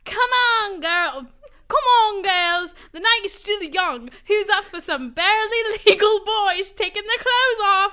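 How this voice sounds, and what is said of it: Reading in a put-on accent. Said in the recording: “I love the accent.”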